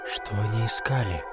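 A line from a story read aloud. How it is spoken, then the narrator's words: Quiet question. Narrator (Russian): тихо спросил я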